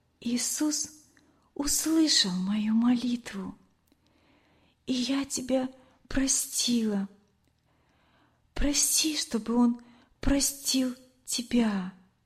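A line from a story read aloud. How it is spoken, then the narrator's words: Quiet whisper. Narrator (Russian): Лена тихо прошептала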